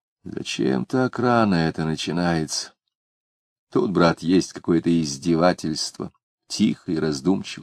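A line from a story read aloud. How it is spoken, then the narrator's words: Plain. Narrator (Russian): сказал Макаров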